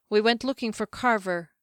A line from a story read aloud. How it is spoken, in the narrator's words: Kier said